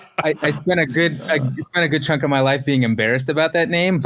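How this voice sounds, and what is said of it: Usual voice. Nothing is said of it.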